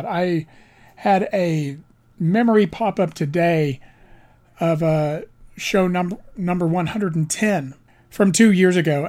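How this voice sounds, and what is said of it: Slightly raspy, strained voice. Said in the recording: “my voice is a little raspy ... It is from the amount of pollen ... I'm a little raspy. I'm having a bit difficult time talking”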